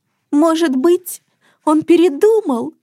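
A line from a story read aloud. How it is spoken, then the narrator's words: Sobbing. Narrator (Russian): всхлипнула Хюльда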